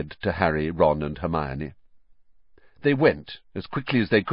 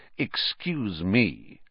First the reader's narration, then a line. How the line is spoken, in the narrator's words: said Snape, icily